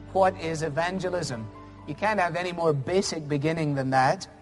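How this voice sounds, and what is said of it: Noticeably strong regional accent. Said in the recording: “My accent, I think, a little stronger.”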